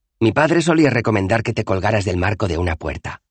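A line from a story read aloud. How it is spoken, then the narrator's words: Casual tone. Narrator (Spanish): dijo en tono coloquial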